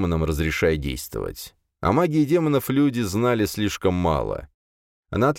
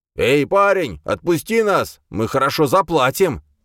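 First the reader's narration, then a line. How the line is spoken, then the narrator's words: Shouting man. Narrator (Russian): крикнул мне блондин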